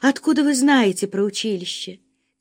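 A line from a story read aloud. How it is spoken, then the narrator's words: Quiet question. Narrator (Russian): тихо спросила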